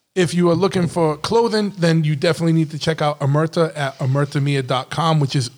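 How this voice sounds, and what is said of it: Strong, hard-to-understand accent. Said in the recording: “my accent is retarded to most of you guys out there”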